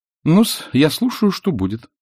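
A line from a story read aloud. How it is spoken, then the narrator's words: Calm, mocking. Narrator (Russian): проговорила она спокойно и насмешливо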